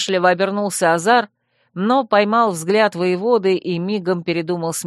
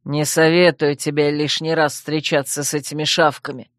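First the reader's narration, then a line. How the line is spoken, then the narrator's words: Through gritted teeth. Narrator (Russian): процедил Шранк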